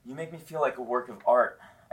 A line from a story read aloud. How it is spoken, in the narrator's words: I gasp through tears